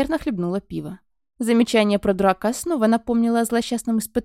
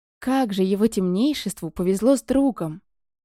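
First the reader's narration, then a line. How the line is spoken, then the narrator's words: Breathless delighted blurt. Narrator (Russian): Не в тему выдохнула Блей, у которой румянцы на щеках тоже было хоть отбавляй, как и восторженного блеска в глазах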